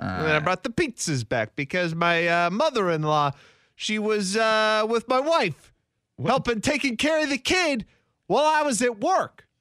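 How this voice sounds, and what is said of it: Starty-stoppy failed Italian accent. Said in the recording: “What is this voice you're doing? ... It's weird. ... I said pizza in an Italian accent ... that wasn't really an Italian accent ... you were just kind of starty-stoppy ... like an angry northeastern cop ... almost on like the Italian cop cadence, but you didn't actually do the accent”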